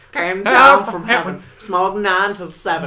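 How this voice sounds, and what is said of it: Singing in a put-on Georgia accent. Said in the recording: “Why are you giving them a Georgia accent?”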